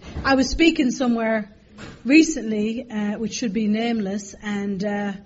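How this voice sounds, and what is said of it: Irish accent. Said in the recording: “my accent's Irish, and it takes a little while to get used to the accent”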